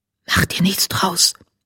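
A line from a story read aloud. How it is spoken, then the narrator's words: Whispered. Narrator (German): flüsterte Haselschweif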